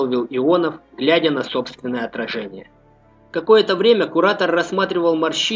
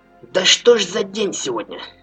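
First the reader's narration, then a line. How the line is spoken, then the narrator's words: Grumbling mutter. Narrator (Russian): пробурчал страж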